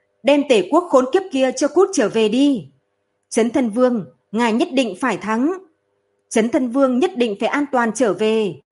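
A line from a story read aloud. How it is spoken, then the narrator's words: Loud cheering shout. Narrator (Vietnamese): một người lớn tiếng hô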